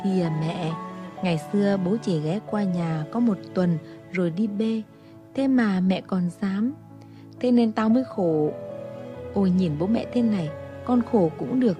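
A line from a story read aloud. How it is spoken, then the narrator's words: Whiny, coaxing. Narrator (Vietnamese): Yến nũng nịu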